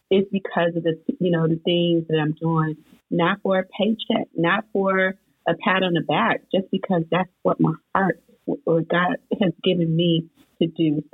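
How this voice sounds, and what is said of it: Slightly hoarse voice. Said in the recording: “my voice is a little hoarse this morning”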